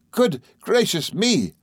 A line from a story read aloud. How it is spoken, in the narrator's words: cried Traddles